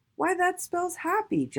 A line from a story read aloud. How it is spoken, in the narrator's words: Jolly Trolley exclaimed